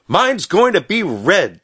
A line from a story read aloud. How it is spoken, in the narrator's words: shouted Stubby